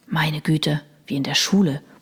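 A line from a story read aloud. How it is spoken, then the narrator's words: Mutter. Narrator (German): murmelte Chris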